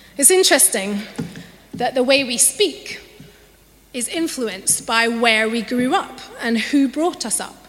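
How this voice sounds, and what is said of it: Mild Scottish accent. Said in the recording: “I have a Scottish accent, although it's not as strong as it once was”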